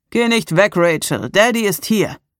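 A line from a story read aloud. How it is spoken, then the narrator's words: Calling in another's voice. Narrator (German): rief er mit Andys Stimme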